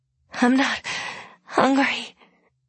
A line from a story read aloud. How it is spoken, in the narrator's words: panted the girl between heavy breaths